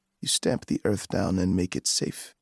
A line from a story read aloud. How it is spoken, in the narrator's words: the chief said dryly